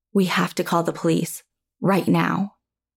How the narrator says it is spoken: I whispered

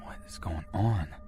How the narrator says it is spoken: whispering to myself

